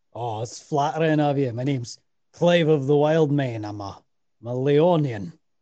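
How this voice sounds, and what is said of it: Character voice with a put-on accent. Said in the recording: “This accent, I love it so much.”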